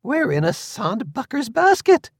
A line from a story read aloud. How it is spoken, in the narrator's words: exclaimed Moira